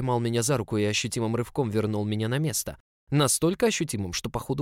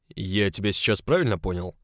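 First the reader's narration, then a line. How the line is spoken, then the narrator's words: Booming. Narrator (Russian): Хога прогремел надо мной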